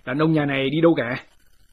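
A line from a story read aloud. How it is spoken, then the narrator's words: Loud shouted demand. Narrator (Vietnamese): Một số tên sai dịch do quan phủ phái đi bắt lính lớn tiếng quát hỏi bà lão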